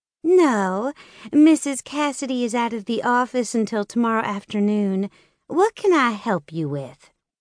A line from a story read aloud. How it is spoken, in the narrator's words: Tiffany asked sweetly